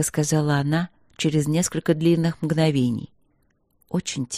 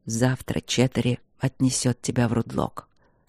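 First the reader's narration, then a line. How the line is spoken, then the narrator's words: Muffled, flat voice. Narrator (Russian): произнес он глухо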